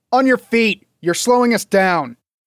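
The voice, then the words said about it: Louder, raised voice. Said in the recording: “In a louder voice”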